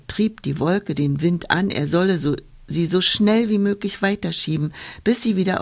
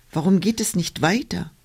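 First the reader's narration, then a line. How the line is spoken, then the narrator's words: Cloud calling out. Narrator (German): rief die Wolke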